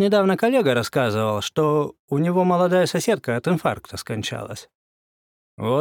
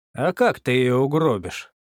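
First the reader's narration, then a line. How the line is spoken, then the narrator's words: Calm policeman. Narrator (Russian): вполне спокойно заявил полицейский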